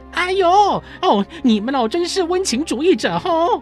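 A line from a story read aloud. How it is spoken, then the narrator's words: Impatient yelling. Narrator (Chinese): 拿破仑听了不耐烦地吼叫起来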